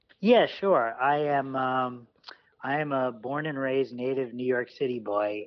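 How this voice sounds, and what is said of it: Great radio voice. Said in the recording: “You have a great radio voice.”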